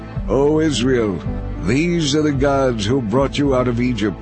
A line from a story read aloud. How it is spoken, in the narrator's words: The people exclaimed